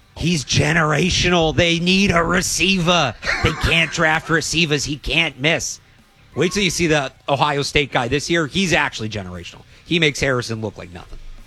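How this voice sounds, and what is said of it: Bad put-on Boston accent. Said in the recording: “That's the worst Boston accent. Seriously, I've ever heard. ... Part of the impersonation was a bad Boston accent.”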